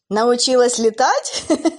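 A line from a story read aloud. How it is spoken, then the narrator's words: Mocking laugh. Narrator (Russian): Посмеялась Шаркань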